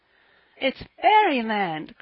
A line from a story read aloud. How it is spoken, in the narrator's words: cried little Davy, out of his wits with joy